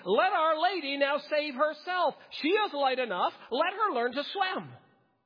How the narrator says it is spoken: Knox … shouting

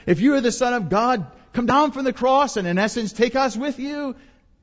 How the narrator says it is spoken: he's mocking with the other malefactor

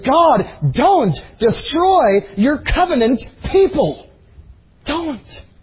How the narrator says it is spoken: he prayed urgently

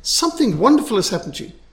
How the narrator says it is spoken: his mother to exclaim

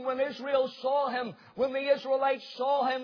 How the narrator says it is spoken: they cried

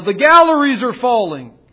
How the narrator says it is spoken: someone else in another part of the music hall began to yell

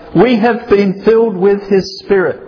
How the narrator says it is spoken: Others shouted

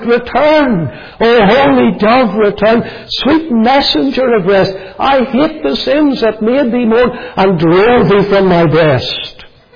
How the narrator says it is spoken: he cries out

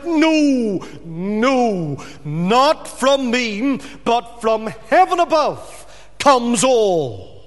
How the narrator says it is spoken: With what strength he had, he mustered it, and he cried out

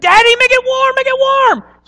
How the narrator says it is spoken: he started squealing

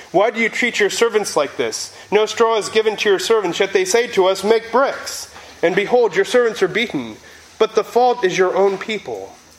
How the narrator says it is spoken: the foremen of the people of Israel came and cried to Pharaoh

